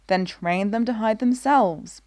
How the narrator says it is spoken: Brea snaps

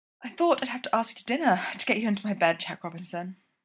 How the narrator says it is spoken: said breathlessly

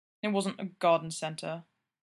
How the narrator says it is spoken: Gino muttered

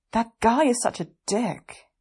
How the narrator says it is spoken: Weiying grumbles

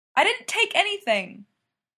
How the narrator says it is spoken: Taylor yells

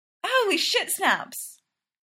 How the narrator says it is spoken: shrieks

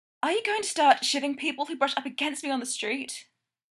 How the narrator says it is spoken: Stiles gasps

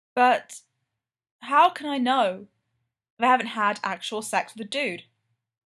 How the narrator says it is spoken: Frank sighs

